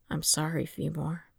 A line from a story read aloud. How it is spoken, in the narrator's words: Qui-Gon murmured